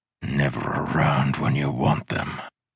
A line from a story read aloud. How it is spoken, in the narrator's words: muttered